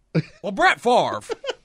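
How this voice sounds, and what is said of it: Bad mumbling John Madden impression. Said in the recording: “Madden impression ... It's terrible. ... in a mouthful of marbles? ... In a weird voice? ... That was horrible. ... that was really bad ... It's Caliendo”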